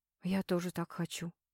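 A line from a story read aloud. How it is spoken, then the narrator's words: Quiet, close to ear. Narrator (Russian): тихо произнес Дежнев над самым ухом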